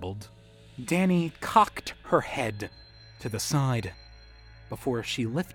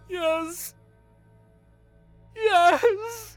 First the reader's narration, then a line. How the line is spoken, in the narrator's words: Jay wailed, tears sprouting at the corners of his eyes